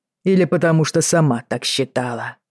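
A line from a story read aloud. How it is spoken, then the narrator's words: Rough reply. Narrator (Russian): грубо ответил Джейми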